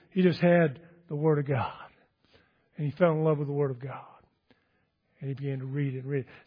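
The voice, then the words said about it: Texas accent. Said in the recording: “I'm sure you can't understand my Texas accent sometimes”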